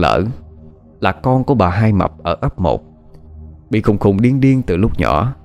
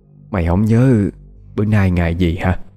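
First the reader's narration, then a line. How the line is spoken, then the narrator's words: Sighing. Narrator (Vietnamese): Bà Bảy Liên thở dài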